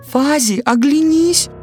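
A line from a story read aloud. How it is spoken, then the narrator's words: Sudden shout, small bird. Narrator (Russian): Вдруг закричала синица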